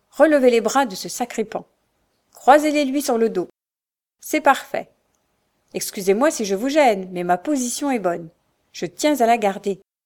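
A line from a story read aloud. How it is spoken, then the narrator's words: Commanding tone. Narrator (French): dit le capitaine d'un ton de commandement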